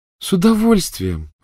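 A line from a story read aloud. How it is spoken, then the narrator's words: Joyful reply. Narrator (Russian): радостно откликнулась Полумна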